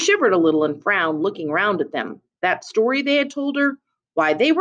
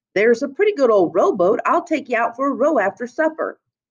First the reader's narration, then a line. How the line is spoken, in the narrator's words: Miles said cheerfully and with sudden sympathy